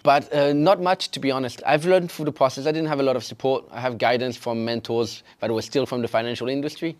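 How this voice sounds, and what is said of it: French accent. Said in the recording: “I've got a French accent, as you can tell.”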